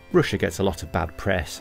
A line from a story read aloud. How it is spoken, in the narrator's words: I said